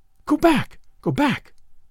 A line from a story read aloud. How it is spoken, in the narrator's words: she cried